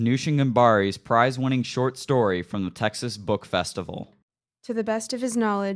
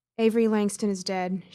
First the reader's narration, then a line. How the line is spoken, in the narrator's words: she murmured softly, almost unwillingly